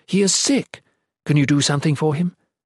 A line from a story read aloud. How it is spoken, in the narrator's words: she exclaimed